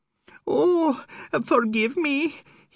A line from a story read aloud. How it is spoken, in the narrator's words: he whined